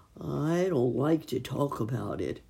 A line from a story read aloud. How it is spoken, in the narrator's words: sighed Mr